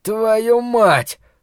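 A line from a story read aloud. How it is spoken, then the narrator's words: Breathed out. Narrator (Russian): выдохнул Ллойд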